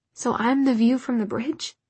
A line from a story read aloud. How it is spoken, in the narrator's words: She laughed